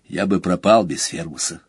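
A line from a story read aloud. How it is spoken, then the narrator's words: Quiet. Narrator (Russian): сказал тихо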